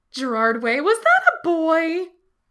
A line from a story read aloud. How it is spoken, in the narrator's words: Becky asks in an alarmingly gleeful tone